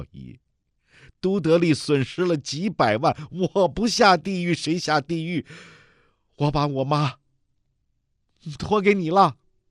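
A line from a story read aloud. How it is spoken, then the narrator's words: Tearful, sad smile. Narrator (Chinese): 梅红雨含泪凄然一笑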